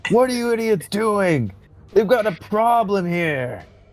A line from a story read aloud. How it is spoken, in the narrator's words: yell out and be like